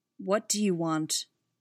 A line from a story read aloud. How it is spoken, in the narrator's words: Barris spoke evenly